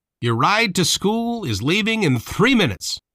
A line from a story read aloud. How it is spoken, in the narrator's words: he shouted